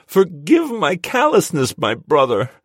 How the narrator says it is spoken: he threw his head back and wailed to the stone ceiling

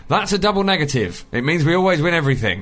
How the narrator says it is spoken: My dad decided to respond by shouting

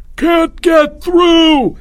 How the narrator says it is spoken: Albert screamed

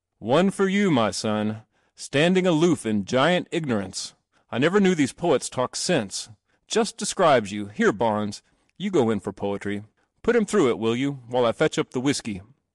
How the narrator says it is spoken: His father laughed again, roared

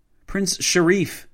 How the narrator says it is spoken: Nabawaki yelled

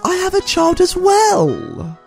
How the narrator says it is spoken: screeches

